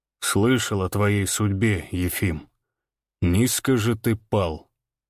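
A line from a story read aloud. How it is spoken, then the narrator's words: Calm. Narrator (Russian): сказал Иван спокойно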